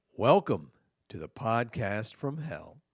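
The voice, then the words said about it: Put-on radio announcer voice. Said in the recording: “Are you doing a voice? ... I feel like you're doing your radio voice.”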